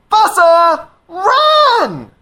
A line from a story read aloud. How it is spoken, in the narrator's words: the lemurs shout